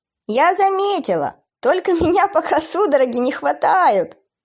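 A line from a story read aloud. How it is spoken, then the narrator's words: Laughing. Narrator (Russian): засмеялась она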